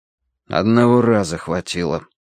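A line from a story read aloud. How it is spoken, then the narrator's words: Gloomy objection. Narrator (Russian): возразил Данворти мрачно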